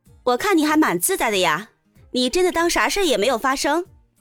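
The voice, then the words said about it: Crisp, clear young female voice. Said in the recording (Chinese): “一个脆生生的声音说道”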